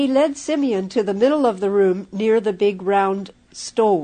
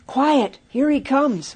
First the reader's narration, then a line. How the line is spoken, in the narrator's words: whispered James out of breath from running